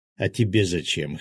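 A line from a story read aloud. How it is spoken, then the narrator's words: Snort. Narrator (Russian): хмыкнул Феникс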